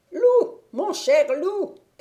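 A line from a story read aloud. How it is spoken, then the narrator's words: Witch shouting. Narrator (French): cria la sorcière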